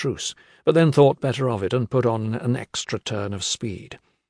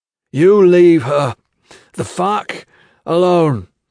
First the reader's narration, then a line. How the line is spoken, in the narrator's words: Gentle gasped, knowing even as he spoke he had no way of enforcing this edict in his present state